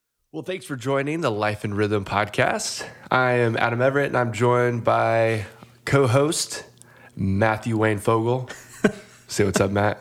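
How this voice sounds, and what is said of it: Radio-style podcast host voice. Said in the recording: “I'm really enjoying your podcast voice... trying to make it a little bit more radio-esque”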